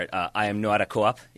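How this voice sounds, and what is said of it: Put-on Boston accent. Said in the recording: “That's me doing every Boston accent from The Departed.”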